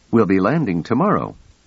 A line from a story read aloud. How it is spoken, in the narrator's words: said cheerfully